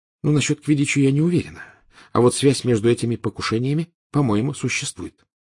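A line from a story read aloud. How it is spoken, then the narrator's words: Quiet. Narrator (Russian): тихо сказала Гермиона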